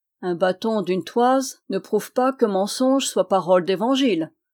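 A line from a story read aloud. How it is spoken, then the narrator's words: Plain. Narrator (French): dit-il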